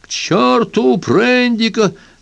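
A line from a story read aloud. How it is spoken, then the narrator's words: Captain yelling. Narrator (Russian): завопил капитан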